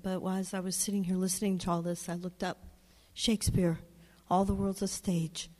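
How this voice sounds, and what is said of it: Rough, unwell-sounding voice. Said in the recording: “Excuse my voice, I'm getting over being sick.”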